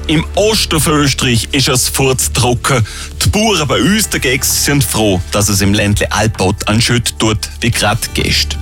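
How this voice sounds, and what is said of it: Speaks in regional Austrian dialect. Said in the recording (German): “im Dialekt”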